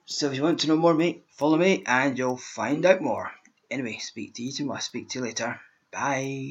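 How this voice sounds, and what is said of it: Scottish accent. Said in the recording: “my accent is Scottish”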